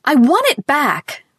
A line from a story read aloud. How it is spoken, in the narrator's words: Ruth wailed furiously